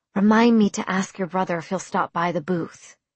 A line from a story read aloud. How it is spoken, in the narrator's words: I whispered to Lee